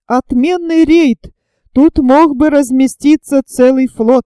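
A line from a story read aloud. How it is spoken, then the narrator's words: Exclaimed. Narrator (Russian): воскликнул Пенкроф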